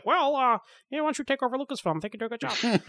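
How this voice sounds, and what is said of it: George Lucas impression. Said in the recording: “my George Lucas impression”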